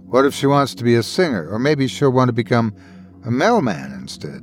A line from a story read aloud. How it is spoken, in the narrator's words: Irvin chuckled, shaking his head